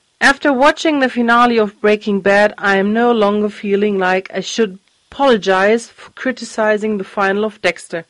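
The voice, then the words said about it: Sick, congested-sounding voice. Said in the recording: “No, I am not in tears because of Dexter. I just caught a cold, so please excuse my voice.”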